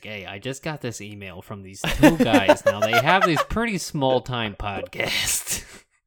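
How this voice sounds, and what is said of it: Impression with a Jersey accent. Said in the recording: “Every person I do an impression of has that accent ... do a Jersey accent, I'm like, yeah, I feel very confident doing that”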